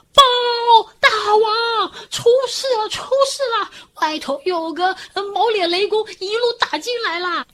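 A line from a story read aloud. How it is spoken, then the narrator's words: Panicked shout. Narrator (Chinese): 小鬼 大喊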